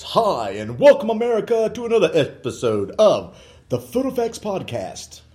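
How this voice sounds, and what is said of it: Announcer-style radio voice. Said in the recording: “This is my radio voice.”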